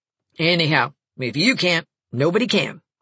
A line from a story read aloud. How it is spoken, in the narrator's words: she said